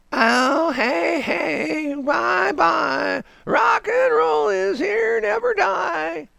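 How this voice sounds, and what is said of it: Sung imitation of another person's voice. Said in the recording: “my Neil Young impression”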